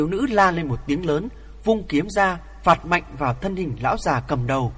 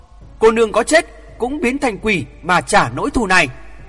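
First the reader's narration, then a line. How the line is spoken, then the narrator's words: Hate-filled scream. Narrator (Vietnamese): Nàng oán hận đến cùng cực, hét to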